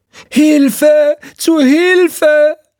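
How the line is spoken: Shrieking woman's voice. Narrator (German): eine kreischende Frauenstimme

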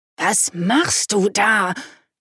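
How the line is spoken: Hissed through clenched teeth. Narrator (German): zischte mit zusammengebissenen Zähnen

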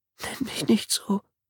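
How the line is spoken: Whimpering. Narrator (German): wimmerte sie

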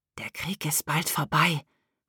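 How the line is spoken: Whispered. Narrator (German): hatte Fritz Emma zugeflüstert

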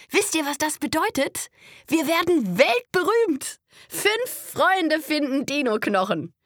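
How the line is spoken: Calling out. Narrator (German): ruft Conny

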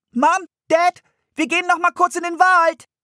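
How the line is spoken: Calling through screen door. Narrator (German): rief Anne durch die Fliegengittertür

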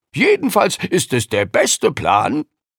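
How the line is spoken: Called out. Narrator (German): rief Lukas

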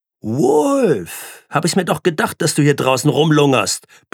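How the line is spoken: Shouting. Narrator (German): brüllte sie in den Gang

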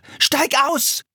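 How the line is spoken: Screaming. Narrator (German): schrie Philipp

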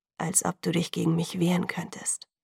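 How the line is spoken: Gentle. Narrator (German): sagte er sanft

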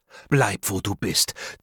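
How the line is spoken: Hissing. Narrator (German): zischte er

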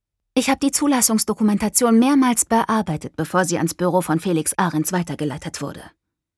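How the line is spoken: Plain. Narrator (German): sagte Caroline

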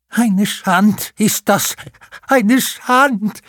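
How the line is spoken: Lamenting. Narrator (German): jammerte

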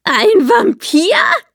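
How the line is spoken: Laughing loudly. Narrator (German): musste laut lachen

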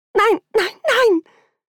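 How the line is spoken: Wailing. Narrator (German): hörte ich mich selbst jammern

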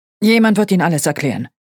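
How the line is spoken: Gruff irritated growl. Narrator (German): knurrte er unwirsch

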